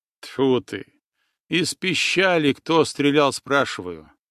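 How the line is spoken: Tired laugh. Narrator (Russian): Устало рассмеялся Иван

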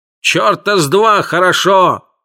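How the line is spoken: Yelled. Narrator (Russian): заорал Филд

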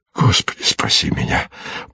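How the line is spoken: Frightened whisper. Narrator (Russian): прошептал в страхе

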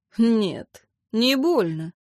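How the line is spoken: Evasive snort. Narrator (Russian): уклончиво хмыкнул лорд

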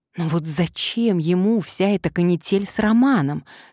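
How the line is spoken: Plain. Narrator (Russian): спросила Маша

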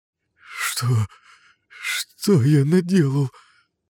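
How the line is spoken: Whimpering, abruptly cut off. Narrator (Russian): Захныкал было кореец, но замер

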